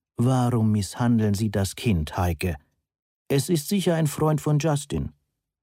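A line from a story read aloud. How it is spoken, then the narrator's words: Calm, heavily accented voice. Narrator (German): sagte eine ruhige Stimme mit starkem Akzent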